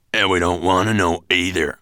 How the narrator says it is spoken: growled Stonebeard

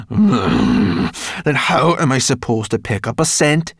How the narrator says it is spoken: said crossly

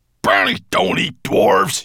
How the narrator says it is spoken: he growled

